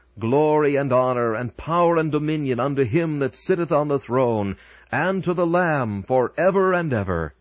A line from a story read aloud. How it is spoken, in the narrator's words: those who stand on the boundless plains of heaven, and with all their might shout